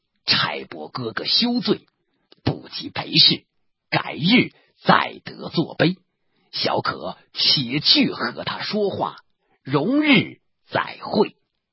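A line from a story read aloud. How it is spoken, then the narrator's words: Laughing. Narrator (Chinese): 宋江笑道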